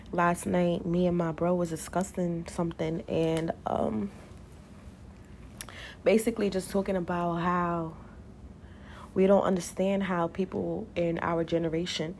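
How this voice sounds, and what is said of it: Groggy, just-woke-up voice. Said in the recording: “my voice is a little groggy. I low-key just woke up”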